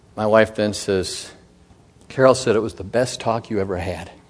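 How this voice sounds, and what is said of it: Slightly choked-up, emotional voice. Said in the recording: “I got a little choked up even when I said what my wife said”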